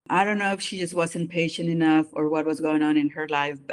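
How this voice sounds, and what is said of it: Non-native mixed English accent. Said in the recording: “my accent is quite unique. I think it's just a combination of different accents... in English, I have an accent”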